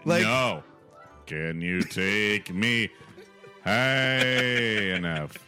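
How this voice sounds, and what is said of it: Singing in falsetto. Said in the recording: “my falsetto there”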